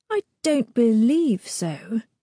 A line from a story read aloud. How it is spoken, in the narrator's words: she says hesitantly